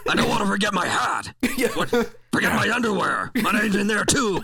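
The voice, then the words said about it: Imitates a horror movie villain's voice. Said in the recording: “my Freddy Krueger impression.”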